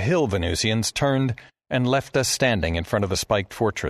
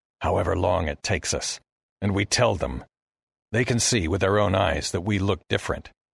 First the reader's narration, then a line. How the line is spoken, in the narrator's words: Commander Heston said quietly